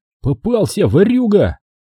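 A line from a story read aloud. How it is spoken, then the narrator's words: Shouted, beside himself. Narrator (Russian): Не помня себя, выкрикнул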